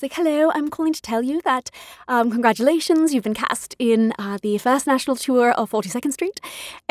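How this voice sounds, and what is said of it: Put-on British accent. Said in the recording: “She was British, had the loveliest accent.”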